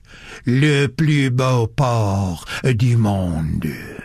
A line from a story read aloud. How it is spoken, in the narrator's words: he said solemnly